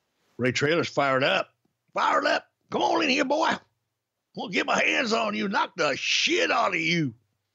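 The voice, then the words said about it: Good put-on Southern US accent. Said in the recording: “that's a really good Southern impression”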